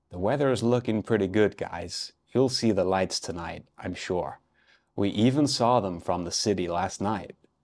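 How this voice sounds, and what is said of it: Put-on American man's accent. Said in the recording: “Here's my best American accent. ... I think that was quite good. So that was an American man”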